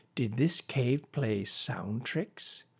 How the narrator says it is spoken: Billy breathed deep

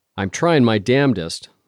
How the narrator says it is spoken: I snarled into the phone

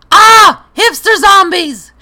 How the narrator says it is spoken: shouted

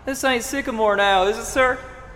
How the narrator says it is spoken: shouted down to me, smiling

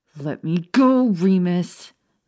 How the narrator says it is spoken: Maya snarled as she struggled against his long arms

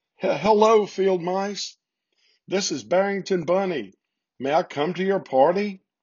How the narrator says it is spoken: Barrington was sobbing so much

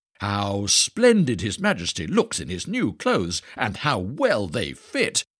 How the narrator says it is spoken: everyone cried out

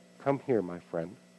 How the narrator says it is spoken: softly said

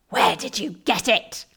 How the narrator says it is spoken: He bellowed

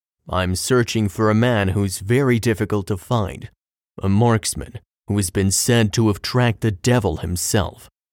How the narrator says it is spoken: spoke the barkeep in a low tone

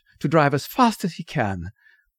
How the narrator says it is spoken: she gasped

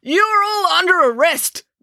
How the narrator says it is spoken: bellowed Constable Pike

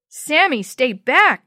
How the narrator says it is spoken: Jenny shouted

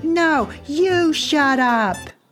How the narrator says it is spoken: New Jersey yelled back

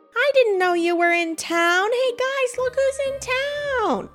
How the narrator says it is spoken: someone charging at you, drink in hand, shouting

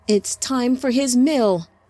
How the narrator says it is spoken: Samjaza yelled at the Sabasi attending them

